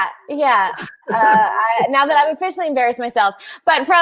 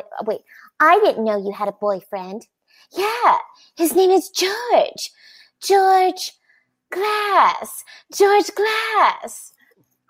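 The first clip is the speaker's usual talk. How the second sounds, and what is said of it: Imitates TV sitcom characters' voices. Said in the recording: “that's my impression ... from the Brady Bunch”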